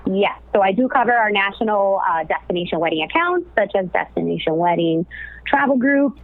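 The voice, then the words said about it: Miami accent. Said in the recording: “originally from Miami, as a lot of you may know, or maybe can tell from my accent”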